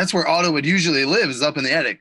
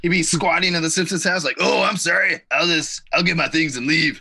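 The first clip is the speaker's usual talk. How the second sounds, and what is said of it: Impression of Otto from The Simpsons. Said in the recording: “that's a great impression of Otto ... You're so good.”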